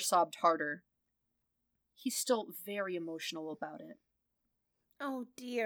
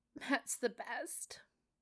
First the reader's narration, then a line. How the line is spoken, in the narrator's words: Peter murmured into Matt's shirt, just loud enough for the officer to hear, just quiet enough to sound like a wholesome truth